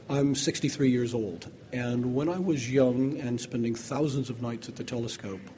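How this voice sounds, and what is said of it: North American accent. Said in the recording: “You can hear I have a North American accent, even though I am British.”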